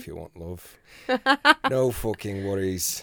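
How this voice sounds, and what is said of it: Put-on northern British accent. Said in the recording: “Do I have to put an accent on? ... you have to be British ... So like a northern accent ... Like me nan”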